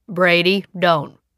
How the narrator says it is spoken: Uncle Boone said in a stern voice

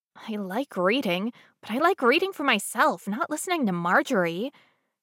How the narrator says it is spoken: Cinders muttered

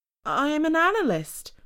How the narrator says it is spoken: she said in a reedy, nervous voice

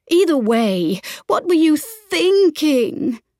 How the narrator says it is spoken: moaned

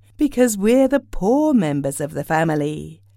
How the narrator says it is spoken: said the mother

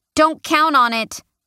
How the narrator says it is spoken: I shout over my shoulder

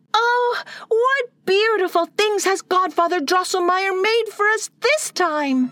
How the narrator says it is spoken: Maria for joy exclaimed

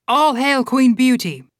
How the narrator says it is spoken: a man in the middle of the hall shouted

